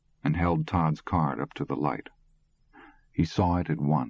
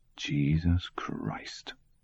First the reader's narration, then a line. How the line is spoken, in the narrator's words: Ed French muttered